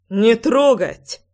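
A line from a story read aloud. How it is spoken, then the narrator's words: Beast's growl. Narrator (Russian): Рычал зверь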